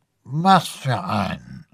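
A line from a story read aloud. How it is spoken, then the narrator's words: Man mumbling. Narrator (German): nuschelte der Mann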